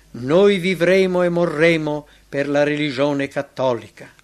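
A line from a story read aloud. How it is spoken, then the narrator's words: Crowd weeping in unison. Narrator (Italian): tutta l'assemblea piangendo esclamò concorde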